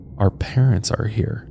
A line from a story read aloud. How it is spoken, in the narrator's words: muttering under their breaths